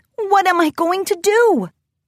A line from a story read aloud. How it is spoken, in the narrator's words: Twilight exclaimed